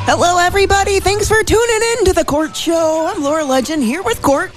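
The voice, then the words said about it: High-pitched voice. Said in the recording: “high voice”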